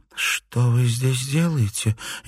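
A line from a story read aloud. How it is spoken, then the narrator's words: Barely audible question. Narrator (Russian): еле слышно спросила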